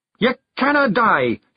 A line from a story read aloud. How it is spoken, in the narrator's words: he yelled